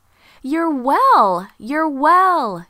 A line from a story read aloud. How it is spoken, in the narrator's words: she shouted with joy